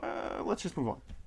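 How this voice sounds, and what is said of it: Impression of Bruce Willis. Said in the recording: “Bruce Willis would look at him and go ... It's kind of a good impression.”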